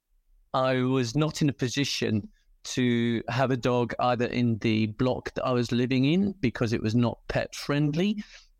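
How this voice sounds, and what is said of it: British accent. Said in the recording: “I'm British, as you can probably tell by the accent”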